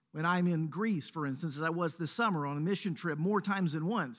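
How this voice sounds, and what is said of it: Mississippi Southern US accent. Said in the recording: “people hear my accent ... From Mississippi”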